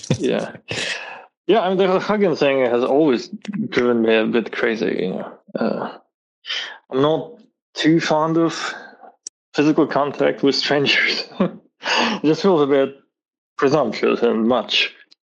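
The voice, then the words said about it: Foreign accent. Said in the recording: “you have an accent. You're from somewhere different”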